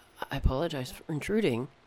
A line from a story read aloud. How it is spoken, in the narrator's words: said in a tremulous tone